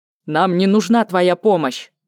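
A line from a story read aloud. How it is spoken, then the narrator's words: Barked. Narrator (Russian): рявкнул Катьяр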